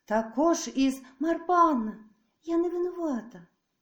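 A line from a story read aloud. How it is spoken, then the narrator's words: Mysteriously joyful. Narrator (Ukrainian): Тут Мартин голос забринів таємничо радісно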